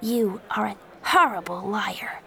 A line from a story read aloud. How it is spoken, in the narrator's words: Joey said quietly